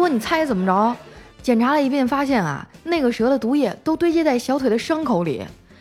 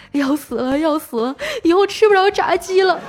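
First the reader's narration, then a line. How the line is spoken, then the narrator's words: Crying while eating. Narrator (Chinese): 那胖子一边吃啊一边哭着说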